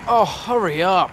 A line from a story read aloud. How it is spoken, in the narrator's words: Ron moaned